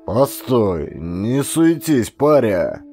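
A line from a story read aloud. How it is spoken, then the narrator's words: Loud barking shout. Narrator (Russian): гаркнул ссыльный десятник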